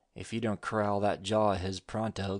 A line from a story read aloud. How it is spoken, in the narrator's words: growled Shorty